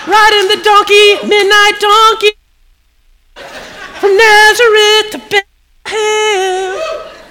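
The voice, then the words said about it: Bad falsetto singing. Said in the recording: “That's my falsetto... That was my falsetto, by the way. It was bad”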